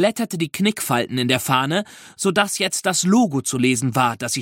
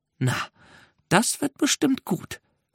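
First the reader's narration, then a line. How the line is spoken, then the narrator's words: Slightly spiteful whisper. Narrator (German): flüsterte sie ein bisschen boshaft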